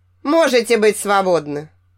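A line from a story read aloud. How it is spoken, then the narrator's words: Casual scoffing teacher. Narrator (Russian): Небрежно хмыкнул учитель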